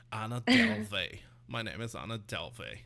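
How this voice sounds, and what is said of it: Imitation of Anna Delvey's accent. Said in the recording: “Anna I hated Delvey. Her accent.”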